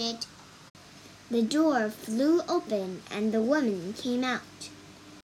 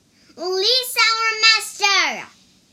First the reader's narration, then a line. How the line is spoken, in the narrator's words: shouted Wukong